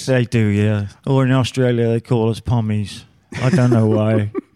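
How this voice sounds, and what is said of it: London English accent. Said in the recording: “Obviously, by the accent, not from our country. ... I'm from London, England”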